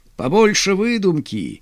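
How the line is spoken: Laughing. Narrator (Russian): смеялся Тимур

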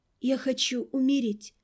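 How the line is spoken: Broken whisper. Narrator (Russian): снова прозвучала глубинная мысль, озвученная надломленным шепотом

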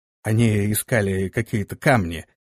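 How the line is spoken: Dull, muffled voice. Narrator (Russian): глухо произнес вор

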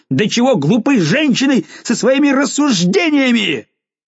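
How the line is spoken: Furious shout. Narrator (Russian): вне себя от гнева, крикнув

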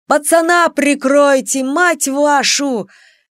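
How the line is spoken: Yelling in battle. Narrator (Russian): В своем последнем бою орал

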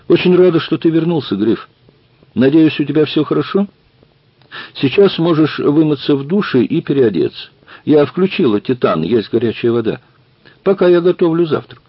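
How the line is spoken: Cheerful. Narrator (Russian): сказала весело

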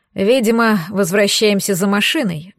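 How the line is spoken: Sighing. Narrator (Russian): вздохнул Гирзл

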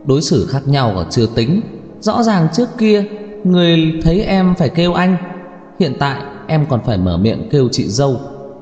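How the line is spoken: Quiet, sarcastic. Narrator (Vietnamese): Hứa Gia Mộc không nhịn được, lặng lẽ châm chọc

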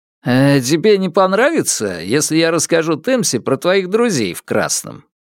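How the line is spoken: Cheerful question. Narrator (Russian): весело спросил я

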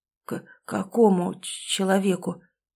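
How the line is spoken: Stammering question. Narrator (Russian): заикаясь, спросил я

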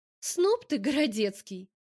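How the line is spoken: Cheerful, then breaking off. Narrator (Russian): Начинаю весело и осекаюсь

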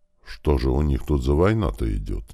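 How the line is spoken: Quiet. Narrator (Russian): негромко произнес Крот

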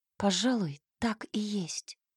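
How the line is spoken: Whispered against lips. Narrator (Russian): шепнула я ему в губы

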